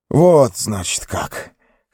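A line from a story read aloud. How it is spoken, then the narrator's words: Hoarse. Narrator (Russian): хрипло проговорил он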